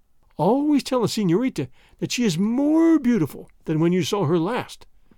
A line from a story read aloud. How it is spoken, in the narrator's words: groaned Don Carlos